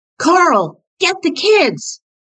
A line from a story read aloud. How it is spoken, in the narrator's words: Chris shouting